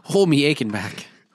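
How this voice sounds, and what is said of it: Poor put-on Irish accent. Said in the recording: “we're Irish now ... I thought it'd be good if we spoke in Irish accents. ... It wasn't good. ... It wasn't good at all.”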